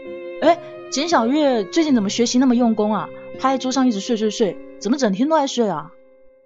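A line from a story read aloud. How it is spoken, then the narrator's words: Loud question. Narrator (Chinese): 顾林大声的问说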